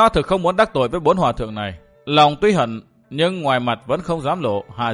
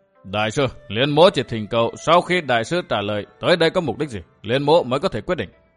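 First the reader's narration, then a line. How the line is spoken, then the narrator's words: Low nasal voice. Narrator (Vietnamese): Mặc Nho hạ giọng mũi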